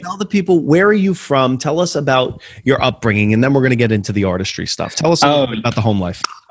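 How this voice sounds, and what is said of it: Northeastern American accent. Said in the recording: “your accent, the American accent, yeah. Although yours is, I suppose, typically Northeast”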